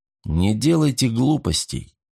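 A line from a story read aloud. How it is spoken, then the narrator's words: Quiet advice. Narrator (Russian): негромко посоветовал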